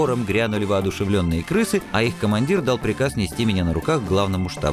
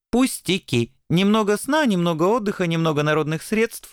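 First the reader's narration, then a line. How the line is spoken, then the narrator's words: Cheerful. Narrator (Russian): бодро отвечал белый ангел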